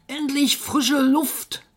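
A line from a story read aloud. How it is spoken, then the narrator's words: Monkey screaming. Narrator (German): Der Affe schrie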